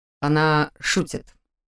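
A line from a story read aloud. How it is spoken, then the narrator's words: Calm explanation. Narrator (Russian): спокойно объяснил он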